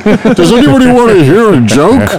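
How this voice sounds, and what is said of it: Imitates another person's voice. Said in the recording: “do my best Chris Smith impersonation”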